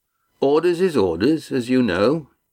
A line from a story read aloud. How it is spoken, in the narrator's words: Mirak replied evenly